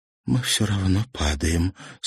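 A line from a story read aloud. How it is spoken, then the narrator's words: Quiet. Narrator (Russian): сказала Марьяна тихо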